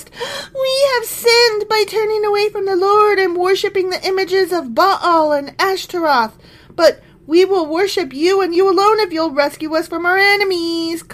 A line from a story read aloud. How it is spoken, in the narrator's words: they cried to the Lord again and confessed